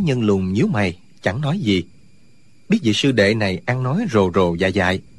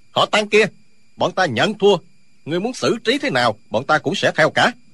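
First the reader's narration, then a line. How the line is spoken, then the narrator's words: Barking shout. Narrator (Vietnamese): quát lên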